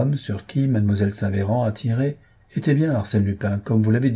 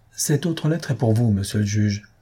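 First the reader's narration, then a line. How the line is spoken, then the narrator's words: Plain. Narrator (French): dit le comte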